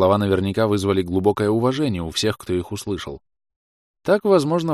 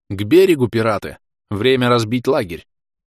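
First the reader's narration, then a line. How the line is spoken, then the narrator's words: Loud commanding. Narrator (Russian): Прозвучало громко и властно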